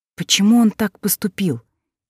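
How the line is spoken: Quiet, steadied question. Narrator (Russian): Тихо, чтобы голос не дрожал, спросила

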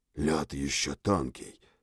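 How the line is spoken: Whisper. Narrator (Russian): прошептал охотник

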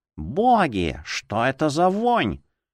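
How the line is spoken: Nasal exhale. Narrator (Russian): гнусаво выдохнул он

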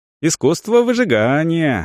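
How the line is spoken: Cheerful reply. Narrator (Russian): отозвался тот весело

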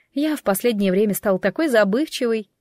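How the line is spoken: Woman sighing condescendingly. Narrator (Russian): Женщина вздохнула

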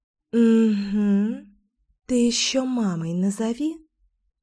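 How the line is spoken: Snide little inner whisper. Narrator (Russian): ехидно прошептал голосок вредины в моей голове

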